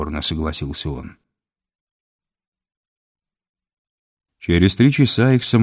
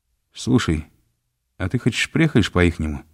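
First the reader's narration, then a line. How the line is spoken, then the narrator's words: Plain question. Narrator (Russian): спросил Мальцев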